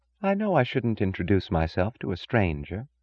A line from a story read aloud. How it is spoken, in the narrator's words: she said softly